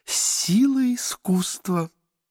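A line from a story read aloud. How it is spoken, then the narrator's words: Breathless laughing whisper. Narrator (Russian): шептала Елена Сергеевна, смеясь и задыхаясь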